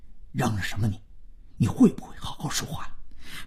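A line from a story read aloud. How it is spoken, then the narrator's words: Quiet but stern. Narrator (Chinese): 万征要面子，说话虽然还很小声，但颇为严厉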